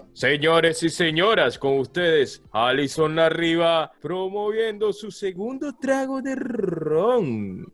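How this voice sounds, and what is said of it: Announcer voice. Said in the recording (Spanish): “Voz de locutor. ... aquí nadie pidió voz de locutor.”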